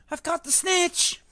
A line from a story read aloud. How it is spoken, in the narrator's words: He shouted